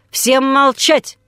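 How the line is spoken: Unusual bark. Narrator (Russian): рявкнул он, что бывало с ним нечасто

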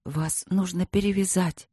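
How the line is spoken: Whisper. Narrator (Russian): прошептала она

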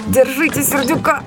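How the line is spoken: Shout right by the ear. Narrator (Russian): закричал голос над самым моим ухом

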